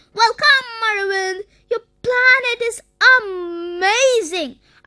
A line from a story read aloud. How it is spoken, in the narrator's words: Arvind exclaimed